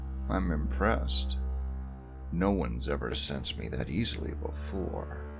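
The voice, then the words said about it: Deep, quiet male voice. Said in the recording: “deep voice quietly respond”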